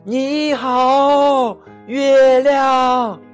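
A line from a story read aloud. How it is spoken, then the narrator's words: Shouting. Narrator (Chinese): 他大叫着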